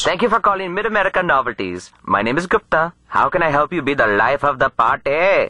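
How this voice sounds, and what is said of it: Put-on Indian accent. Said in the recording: “It sounds like your call center is based in India.”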